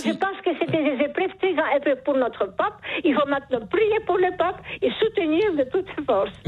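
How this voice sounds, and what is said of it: Charming accent. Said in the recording (French): “Vous avez un charmant accent... ce joli accent”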